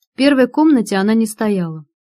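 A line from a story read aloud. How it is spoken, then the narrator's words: Sad statement. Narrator (Russian): грустно констатировала я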